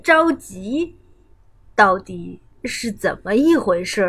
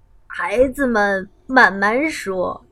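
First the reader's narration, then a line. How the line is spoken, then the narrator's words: Cheerful old woman. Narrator (Chinese): 熊婆婆笑呵呵地说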